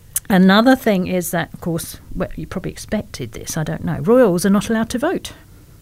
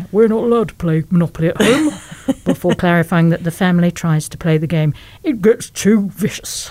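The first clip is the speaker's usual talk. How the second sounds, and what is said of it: Imitates another person's voice. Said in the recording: “that was my impression of Prince Andrew”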